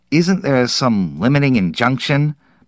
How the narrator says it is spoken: Perrine asked nervously

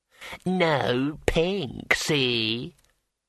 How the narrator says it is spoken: screeched the homunculus

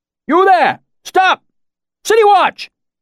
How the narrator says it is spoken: a new voice shouted

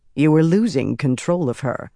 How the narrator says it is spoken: Cadswain said firmly

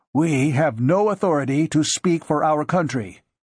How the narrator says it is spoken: Moss said stiffly

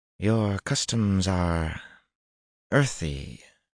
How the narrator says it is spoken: Tuan said in a dry voice

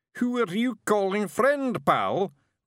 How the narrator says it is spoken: roared the figure

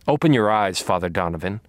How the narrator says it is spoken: I said

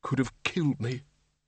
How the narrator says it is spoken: muttered

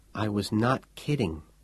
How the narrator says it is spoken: she said to him quietly

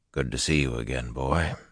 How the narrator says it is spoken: said quietly

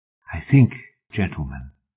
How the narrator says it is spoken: the woman whispered

